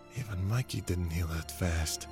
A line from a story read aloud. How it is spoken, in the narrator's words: Nick said under his breath